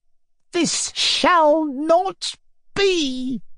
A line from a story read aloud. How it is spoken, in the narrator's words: he cried, resolutely